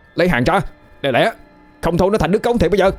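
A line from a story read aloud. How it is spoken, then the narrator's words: Shouting. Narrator (Vietnamese): Nó hét lên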